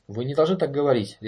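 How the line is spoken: Sharp interruption. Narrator (Russian): резко оборвал ее Конрад

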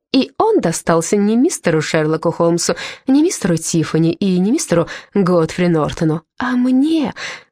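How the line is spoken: Joyful exclamation. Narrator (Russian): радостно вскричала Ирен

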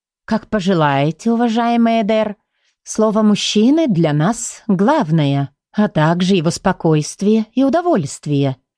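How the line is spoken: Gentle, affectionate. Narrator (Russian): ласково сказала Инесса

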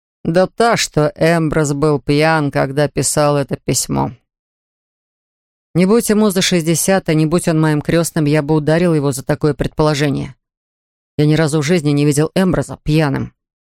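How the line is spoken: Plain. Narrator (Russian): сказал я

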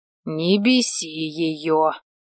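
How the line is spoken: Growl. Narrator (Russian): рыкнул

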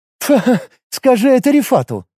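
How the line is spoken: Short laugh. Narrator (Russian): хохотнула Лига

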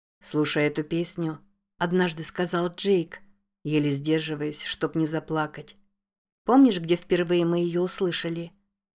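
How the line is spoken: Plain. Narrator (Russian): спросила Зоя

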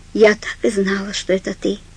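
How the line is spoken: Strangely flat tone. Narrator (Russian): произнесла она странно бесстрастным тоном

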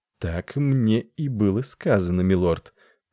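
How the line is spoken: Purring. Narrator (Russian): промурлыкала она

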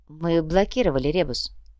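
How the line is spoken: Quiet statement. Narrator (Russian): негромко произнес Артега

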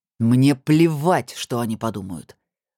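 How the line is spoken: Growling. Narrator (Russian): зарычал Сергей

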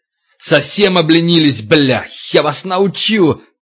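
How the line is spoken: Frantic yelling. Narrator (Russian): Егоров орал, как ненормальный

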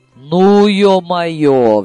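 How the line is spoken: Roaring. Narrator (Russian): взревела Гануся

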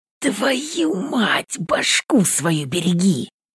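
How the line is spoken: Hissing. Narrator (Russian): в этом шипении голос Дениса Соколовского

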